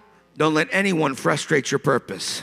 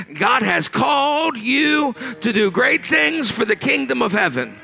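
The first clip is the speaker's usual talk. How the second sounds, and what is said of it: Emphatic preacher-style voice with attitude. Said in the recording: “Let me say it with a little bit of an attitude. Let me say it with my preacher voice.”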